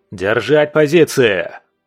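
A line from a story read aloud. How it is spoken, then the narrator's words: Growled. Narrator (Russian): прорычал Свен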